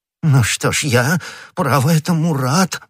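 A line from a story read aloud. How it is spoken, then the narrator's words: Exclaiming. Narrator (Russian): воскликнул господин Бонасье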